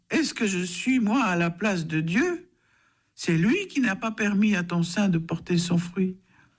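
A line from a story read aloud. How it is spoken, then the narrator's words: Angry exclamation. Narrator (French): Jacob s'irrita contre Rachel et s'écria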